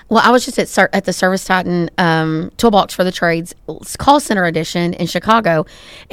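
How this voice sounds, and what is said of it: Texan accent. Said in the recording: “I live in Texas. This is a big joke, if you can't tell from our accents.”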